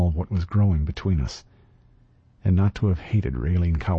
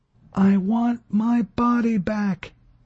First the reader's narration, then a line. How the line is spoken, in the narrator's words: she shouted over the whine and roar of airborne engines